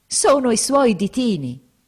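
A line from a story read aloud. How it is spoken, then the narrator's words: Exclamation. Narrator (Italian): esclamò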